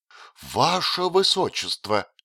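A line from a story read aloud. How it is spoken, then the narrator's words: Horrified exclamation. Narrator (Russian): воскликнул он в ужасе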